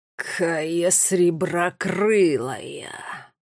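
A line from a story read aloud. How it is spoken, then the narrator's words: Hissed. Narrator (Russian): прошипел он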